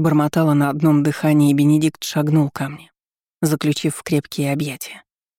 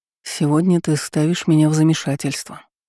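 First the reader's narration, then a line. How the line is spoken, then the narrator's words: Whispered. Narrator (Russian): прошептал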